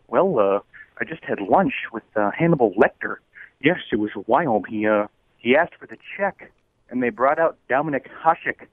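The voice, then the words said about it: Bad Johnny Carson impression. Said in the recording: “bad Johnny Carson impersonation.”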